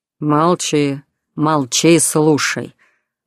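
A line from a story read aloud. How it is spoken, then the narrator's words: Growl right in ear. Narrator (Russian): Рыкнув прямо в ухо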